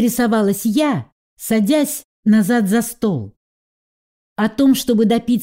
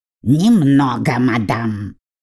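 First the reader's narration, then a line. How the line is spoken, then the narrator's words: Snorting raven. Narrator (Russian): хмыкнул ворон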